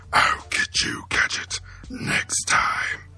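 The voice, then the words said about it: Dr. Claw impression. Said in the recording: “I only got one good impression. ... That's pretty good. ... That's pretty solid, actually. ... That's really good. ... Like, that's all Dr. Cloud would say.”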